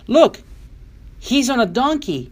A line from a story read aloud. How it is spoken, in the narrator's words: others cried